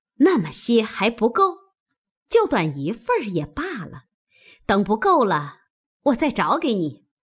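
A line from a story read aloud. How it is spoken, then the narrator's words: Laughing. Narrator (Chinese): 凤姐笑道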